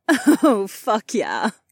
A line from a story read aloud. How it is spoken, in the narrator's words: Kat laughed